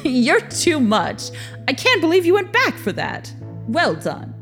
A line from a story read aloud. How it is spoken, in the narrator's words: Victor began to laugh and said